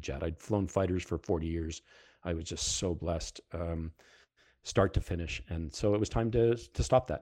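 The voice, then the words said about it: Heavy Canadian, Fargo-like accent. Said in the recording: “my accent is coming back very heavily these days ... if you don't, down south, you don't understand my accent, go watch the movie Fargo and you'll figure me out pretty quickly”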